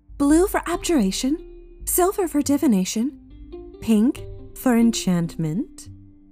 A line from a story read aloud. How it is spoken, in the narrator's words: smirks playfully